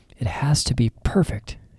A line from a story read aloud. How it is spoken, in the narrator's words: murmured